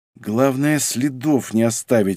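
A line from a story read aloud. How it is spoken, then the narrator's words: Cold, shivering mutter. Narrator (Russian): бормотал он, приплясывая от холода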